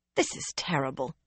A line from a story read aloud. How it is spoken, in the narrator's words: Nissau muttered